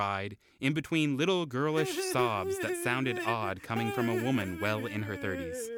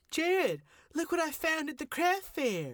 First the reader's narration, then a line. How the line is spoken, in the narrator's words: Joni exclaimed